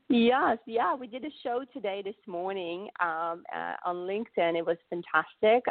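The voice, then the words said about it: Cute regional or foreign accent. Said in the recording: “a nice little cute accent”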